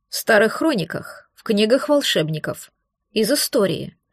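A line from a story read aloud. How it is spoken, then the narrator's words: Calm reply. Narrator (Russian): спокойно отвечал Хантер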